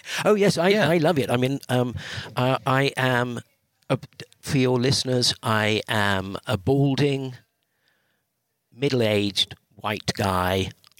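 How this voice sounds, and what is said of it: British accent. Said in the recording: “a Brit with that accent ... gets away with that accent”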